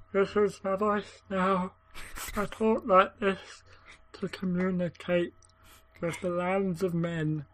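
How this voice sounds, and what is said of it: Scary voice like sad gnome. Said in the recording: “scary voice ... You sound like a tiny little sad, like, gnome.”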